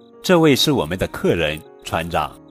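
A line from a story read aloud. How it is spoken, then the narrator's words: Smiling. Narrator (Chinese): 韦伯微笑着说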